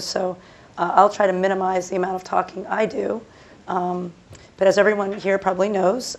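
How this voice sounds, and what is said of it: Hoarse, strained voice. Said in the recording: “I have lost my voice”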